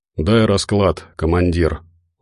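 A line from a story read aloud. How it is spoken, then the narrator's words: Tired request. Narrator (Russian): устало попросил он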